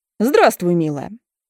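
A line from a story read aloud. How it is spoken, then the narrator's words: Mocking. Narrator (Russian): говорят насмешливо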